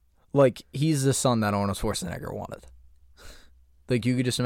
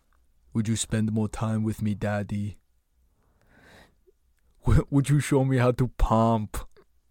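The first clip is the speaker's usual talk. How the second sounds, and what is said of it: Put-on accent imitating another person. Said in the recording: “he wouldn't have that accent ... I just imagine that all of Arnold Schwarzenegger's kids sound like Arnold Schwarzenegger”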